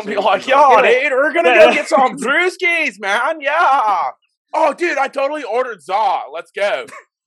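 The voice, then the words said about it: American surfer dude accent. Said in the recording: “your best American accent? ... surfer dude is like the easiest to drop into”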